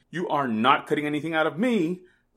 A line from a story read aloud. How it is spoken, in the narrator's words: the novel cried